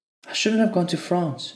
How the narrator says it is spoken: she pleaded

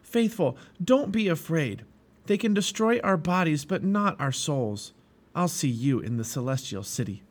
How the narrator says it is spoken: Christian called out

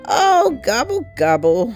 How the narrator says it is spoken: howled Turkey

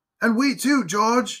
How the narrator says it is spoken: exclaimed Henry

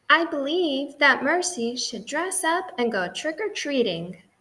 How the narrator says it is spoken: said Mrs

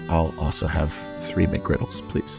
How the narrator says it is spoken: He meekly lowered his head and said

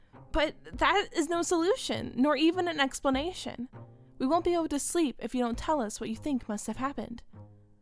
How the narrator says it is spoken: One of them cried out

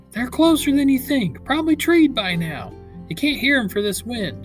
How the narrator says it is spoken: begged

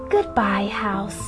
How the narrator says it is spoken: whispered Annie

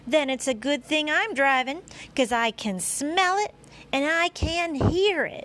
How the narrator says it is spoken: yelled Charlotte

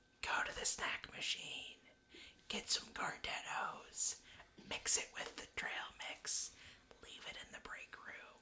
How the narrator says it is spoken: Eris whisper in your ear

